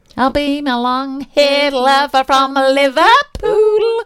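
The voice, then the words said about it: Weak put-on Liverpool accent, singing. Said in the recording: “Not a very good Liverpoolian accent”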